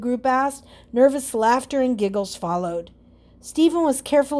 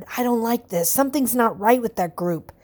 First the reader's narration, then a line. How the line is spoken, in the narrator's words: Stephen whispered